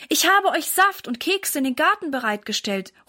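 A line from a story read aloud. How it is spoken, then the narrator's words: Calling out. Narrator (German): ruft zu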